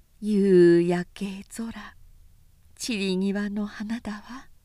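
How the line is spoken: Sighing woman. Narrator (Japanese): 女主人はため息をついて

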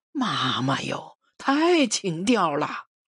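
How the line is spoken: Dazed, bashful exclamation. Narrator (Chinese): 刘大顺的脸也和天边的晚霞一样红了，他呆呆的感叹了句

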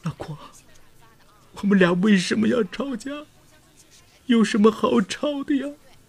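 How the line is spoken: Crying aloud. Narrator (Chinese): 郭本飞忍不住哭出声来

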